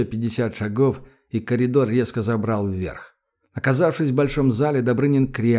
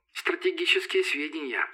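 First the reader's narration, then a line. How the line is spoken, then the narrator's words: Giggling. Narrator (Russian): хихикнула Юка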